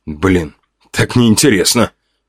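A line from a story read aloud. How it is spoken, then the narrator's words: Grumbling. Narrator (Russian): проворчал я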